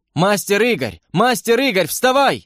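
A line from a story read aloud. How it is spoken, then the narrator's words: Yelling right by ear. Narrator (Russian): вопили у меня над ухом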